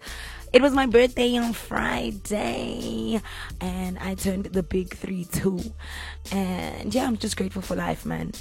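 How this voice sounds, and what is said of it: Hoarse, nearly lost voice. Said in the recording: “You can hear in my voice. In fact, you can't even hear my voice.”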